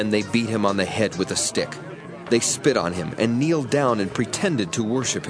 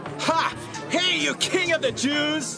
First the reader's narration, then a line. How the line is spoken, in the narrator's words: They made fun of Jesus and shouted